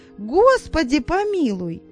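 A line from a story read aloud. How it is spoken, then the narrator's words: Exclaiming. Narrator (Russian): воскликнула она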